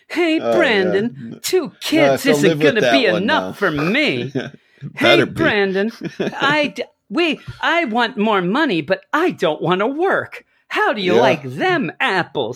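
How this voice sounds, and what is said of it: Imitates another person's voice. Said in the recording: “is that a good impersonation? ... A pretty good impersonation”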